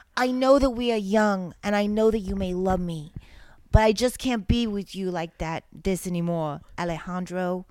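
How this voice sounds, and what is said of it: Put-on New Jersey accent. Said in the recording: “Do you want me to do it in a Jersey voice?”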